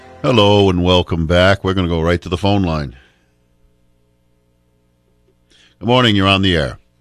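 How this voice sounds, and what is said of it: Deep male voice. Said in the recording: “you got a nice deep voice”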